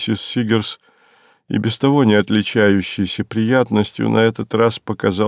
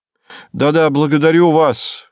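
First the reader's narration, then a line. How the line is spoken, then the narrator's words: Loud. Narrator (Russian): громко сказал Соловьев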